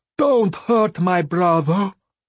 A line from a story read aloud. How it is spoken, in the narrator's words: Vindalaya wailed